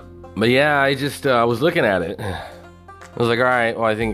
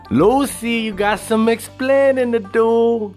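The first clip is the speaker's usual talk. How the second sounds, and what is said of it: Bad put-on Cuban accent. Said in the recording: “horrible Cuban accent”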